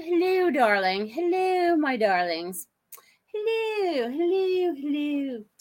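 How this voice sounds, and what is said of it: Unidentified put-on accent. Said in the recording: “I don't know what accent that just was”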